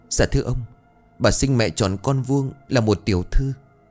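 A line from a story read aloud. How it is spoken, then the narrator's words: Trembling voice. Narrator (Vietnamese): Cô run rẩy bảo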